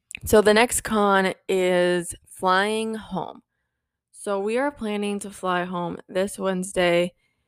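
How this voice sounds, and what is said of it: Hoarse voice, talking fast. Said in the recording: “hoarse my voice is. And I think I'm talking really fast”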